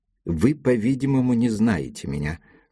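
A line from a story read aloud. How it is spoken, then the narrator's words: Plain. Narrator (Russian): сказал он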